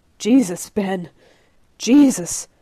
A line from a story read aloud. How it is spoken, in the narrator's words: Ray gasps